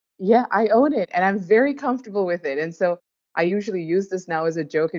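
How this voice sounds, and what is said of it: Mixed Indian, British, American accent. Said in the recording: “just have my own accent. And so now it's just completely mixed up. Like I'll have very strong like consonant sounds, like, you know, how a normal Indian would. And then I would also roll my R's”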